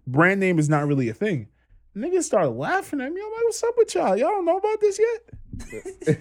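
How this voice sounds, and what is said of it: Strong Trinidadian accent. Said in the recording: “I got picked on for my accent ... my Trini accent is still very strong”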